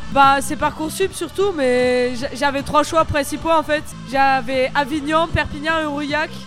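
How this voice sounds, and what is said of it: Slight southern French accent. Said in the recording (French): “Tu as un petit accent du sud, comme on dit. ... Ça explique bien l'accent quand même.”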